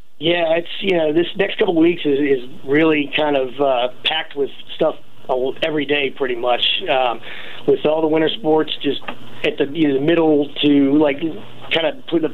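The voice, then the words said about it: Strained, worn-out voice. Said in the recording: “as you can tell by my voice, I've been talking a lot and when I probably shouldn't be.”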